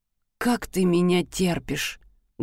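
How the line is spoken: Muffled, lips barely moving. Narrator (Russian): Глухо спросил он, почти не шевеля губами

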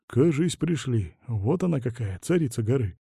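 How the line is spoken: Mumble. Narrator (Russian): пробормотал Василий

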